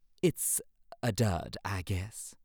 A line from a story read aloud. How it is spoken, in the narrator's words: said the goose